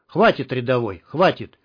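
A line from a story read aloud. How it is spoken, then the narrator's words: Rough, cutting off. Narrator (Russian): Грубо оборвал его Штык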